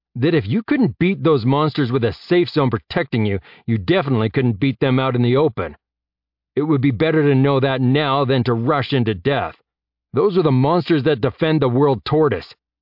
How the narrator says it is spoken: Jeb shouted, raising his voice

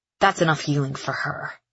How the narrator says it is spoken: she hisses

